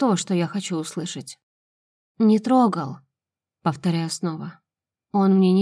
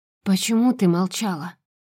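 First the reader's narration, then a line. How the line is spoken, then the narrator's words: Hoarse, rasping voice. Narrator (Russian): и он хрипит, будто заразился от меня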